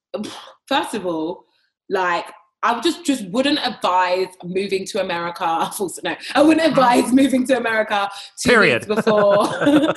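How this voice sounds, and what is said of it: UK accent. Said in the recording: “you obviously are from the UK ... your convincing accent”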